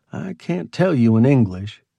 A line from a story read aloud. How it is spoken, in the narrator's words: he said